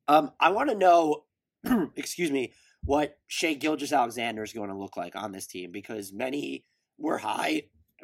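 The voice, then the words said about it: Strained voice, losing his voice. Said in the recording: “I'm losing my voice here.”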